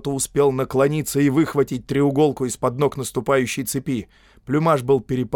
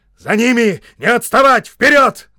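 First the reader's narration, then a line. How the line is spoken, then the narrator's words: Shouting major. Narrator (Russian): кричал майор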